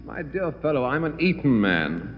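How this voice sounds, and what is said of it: Posh English accent. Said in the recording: “why do you speak with an English accent?”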